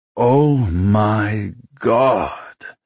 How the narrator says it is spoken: Stoyan groaned behind him

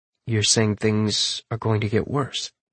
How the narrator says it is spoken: I murmur

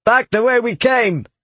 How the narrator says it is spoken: he shouted

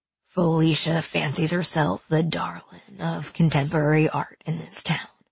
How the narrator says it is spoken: Bennett said in a low voice

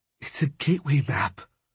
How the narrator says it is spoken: she said, her voice trembling

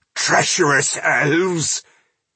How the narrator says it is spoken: he groaned

